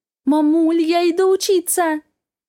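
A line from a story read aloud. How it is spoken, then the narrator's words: Joyful exclamation into phone. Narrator (Russian): радостно восклицаю в трубку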